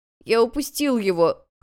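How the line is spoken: Boy whimpering. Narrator (Russian): хныкал мальчик

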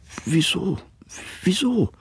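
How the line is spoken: Quiet stammering. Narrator (German): stammelte Martha leise

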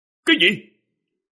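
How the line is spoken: Shocked exclamation. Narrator (Vietnamese): Quỷ Vương gương mặt biến sắc thốt lên

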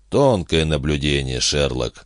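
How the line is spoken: Grumbled. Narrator (Russian): буркнул Гард

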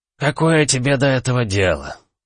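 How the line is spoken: Weary question. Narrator (Russian): устало осведомился Тер Иван

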